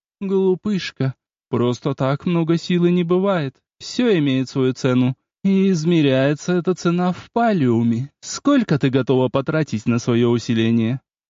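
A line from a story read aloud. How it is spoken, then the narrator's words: Bright laugh, then speaking. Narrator (Russian): ярко рассмеялась, после чего сказала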